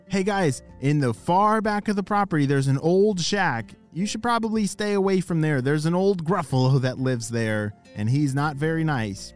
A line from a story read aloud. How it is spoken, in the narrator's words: Their grandparents shouted